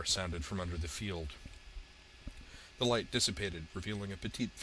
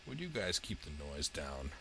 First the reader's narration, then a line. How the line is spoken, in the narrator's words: Raven asked dryly in a soft, sardonic voice